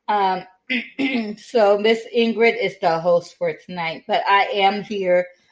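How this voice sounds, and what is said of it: Weak, failing voice from a cold. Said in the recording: “My voice is not working today, as you can tell, probably ... my voice is going in and out and I'm coughing ... I just caught a cold”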